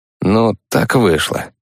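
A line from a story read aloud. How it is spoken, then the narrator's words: Mumbling. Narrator (Russian): промямлил Стас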